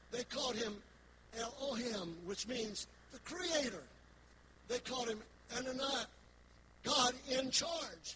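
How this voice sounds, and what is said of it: West Virginia accent. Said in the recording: “I'm from West Virginia. I've got my own accent.”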